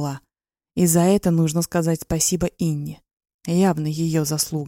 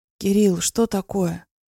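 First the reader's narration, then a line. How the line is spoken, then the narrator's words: Hoarse, strained voice. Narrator (Russian): Прохрипела севшим голосом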